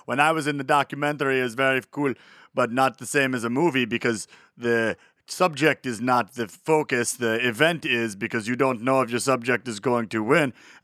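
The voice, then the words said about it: Imitated accent, sounds Swiss German. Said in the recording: “tell the story in his voice ... that accent sounds a little bit more like Swiss German than it does Austrian”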